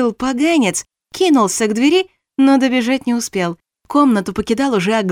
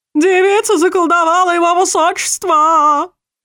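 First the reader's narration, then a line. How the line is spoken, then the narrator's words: Yelling. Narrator (Russian): Завопил один из советников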